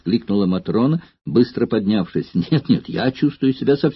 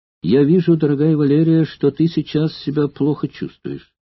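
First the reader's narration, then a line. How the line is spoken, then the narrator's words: Gentle, affectionate. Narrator (Russian): ласково сказал ей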